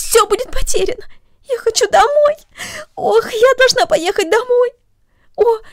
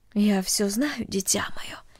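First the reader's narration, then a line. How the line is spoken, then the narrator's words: Quiet motherly voice. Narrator (Russian): тихо сказала мать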